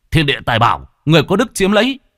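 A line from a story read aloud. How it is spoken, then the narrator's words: Shout. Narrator (Vietnamese): Lâm Phong chỉ hét lên một tiếng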